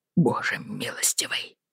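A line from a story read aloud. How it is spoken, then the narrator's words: Muttering aloud. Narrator (Russian): пробормотал он вслух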